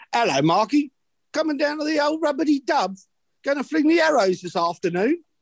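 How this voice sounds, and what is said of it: Put-on Cockney accent. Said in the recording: “my Cockney mates”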